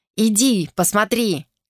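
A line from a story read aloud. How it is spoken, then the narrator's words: Shout. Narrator (Russian): крикнул он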